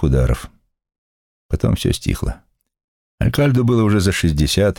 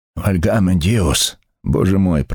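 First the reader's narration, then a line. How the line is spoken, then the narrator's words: Breathless wheeze. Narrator (Russian): прохрипел он, задыхаясь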